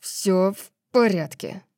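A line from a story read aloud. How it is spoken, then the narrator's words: Through gritted teeth. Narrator (Russian): сказал Диего сквозь зубы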